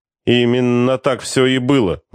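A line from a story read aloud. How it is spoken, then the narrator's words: Gloomy. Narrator (Russian): мрачно подтвердил майор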